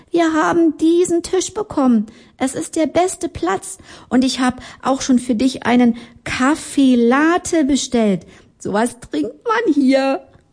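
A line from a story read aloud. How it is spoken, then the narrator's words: Whispering. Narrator (German): Sie flüsterte jetzt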